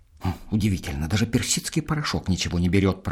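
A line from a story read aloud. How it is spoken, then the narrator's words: Grumbling. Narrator (Russian): проворчал Федя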